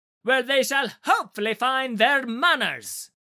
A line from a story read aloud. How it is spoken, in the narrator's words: Eleusion spat